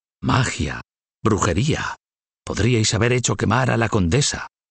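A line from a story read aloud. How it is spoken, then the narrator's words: Whisper. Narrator (Spanish): susurró el Papa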